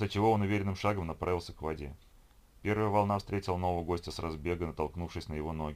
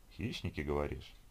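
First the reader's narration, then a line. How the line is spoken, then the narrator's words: Quiet. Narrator (Russian): Евгений тихо произнес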